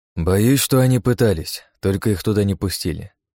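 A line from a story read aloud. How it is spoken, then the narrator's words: Plain. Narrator (Russian): ответил я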